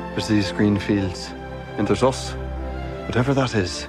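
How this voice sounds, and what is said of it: Poor attempt at Irish accent. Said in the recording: “Not an Irish accent anyway ... Atrocious ... She's pretty bad.”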